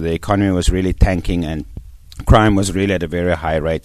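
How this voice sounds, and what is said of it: South African accent. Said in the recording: “You're from South Africa. ... as you can tell from my accent.”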